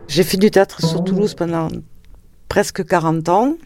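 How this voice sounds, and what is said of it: Regional French accent. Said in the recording (French): “On a essayé souvent de corriger mon accent parce que pour la diction, ça passait beaucoup mieux ... Mon accent fait partie de ce que je suis”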